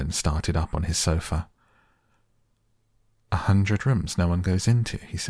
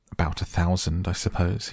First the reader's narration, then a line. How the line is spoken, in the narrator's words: he answered